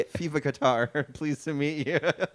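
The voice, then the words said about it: Put-on Irish accent. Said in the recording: “He's an Irish guy ... my Irish accent”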